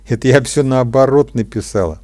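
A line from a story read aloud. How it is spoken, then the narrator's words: Laughing. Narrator (Russian): засмеялась Маргарита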